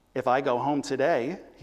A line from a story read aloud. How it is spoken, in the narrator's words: he said evenly and clearly